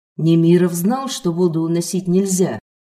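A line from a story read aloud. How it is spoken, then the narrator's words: Plain. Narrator (Russian): спросил Петр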